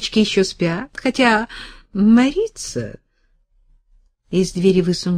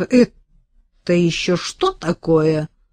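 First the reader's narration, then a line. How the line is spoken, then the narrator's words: Menacing question. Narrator (Russian): грозно спросила хозяйка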